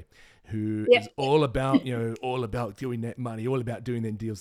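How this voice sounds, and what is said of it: Put-on Essex accent. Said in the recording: “slick back Essex boy ... That was an offensive accent”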